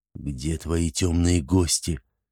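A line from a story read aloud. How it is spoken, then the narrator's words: Quiet question. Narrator (Russian): негромко спросил Шузмарал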